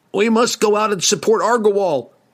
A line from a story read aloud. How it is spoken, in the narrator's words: yelled